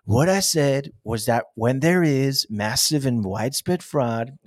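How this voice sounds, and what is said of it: Bad Donald Trump impression. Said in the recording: “that's my really bad impersonation of him”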